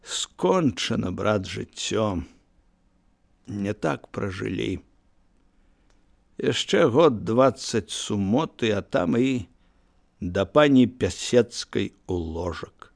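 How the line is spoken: Quiet. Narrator (Belarusian): ціха сказаў

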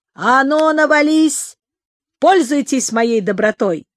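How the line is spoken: Deep bass voice. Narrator (Russian): Мирхайдар пробасил

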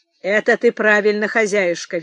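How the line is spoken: Cheerful reply. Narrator (Russian): весело ответил гость

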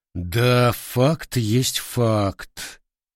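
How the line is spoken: Drawl. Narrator (Russian): протянул руководитель

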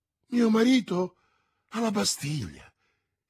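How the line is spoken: Exclaiming. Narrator (Italian): esclamò Madame Bonacieux

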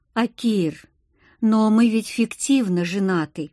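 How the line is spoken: Uncertain speech. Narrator (Russian): неуверенно произнесла

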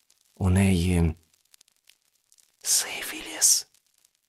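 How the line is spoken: Guard whispering. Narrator (Ukrainian): шепнув вартівник

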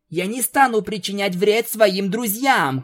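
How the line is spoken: Shouted. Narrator (Russian): крикнула Твайлайт

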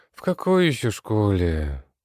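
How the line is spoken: Sighing. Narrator (Russian): Вздохнула Даша

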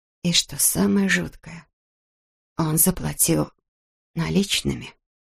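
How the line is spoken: Whispered. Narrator (Russian): прошептала Эбби

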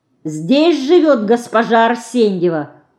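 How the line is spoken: Loud male voice. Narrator (Russian): Громко спрашивает мужской голос

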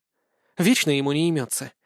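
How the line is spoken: Quiet snort. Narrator (Russian): тихо фыркнула Лина

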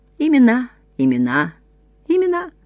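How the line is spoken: Confused, hopeless voice. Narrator (Russian): Растерянно и безнадежно произнес другой голос

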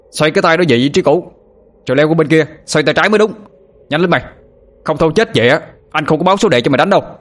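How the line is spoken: Shout without reproach. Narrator (Vietnamese): Anh Thông quát lên, hình như không có ý trách móc

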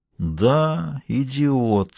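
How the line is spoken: Quiet. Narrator (Russian): произнес он негромко

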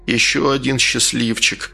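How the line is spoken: Quiet shopkeeper. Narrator (Russian): тихо произнес лавочник

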